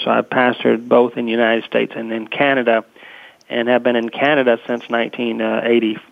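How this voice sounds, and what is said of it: American southern accent. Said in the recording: “as you can tell by the southern accent”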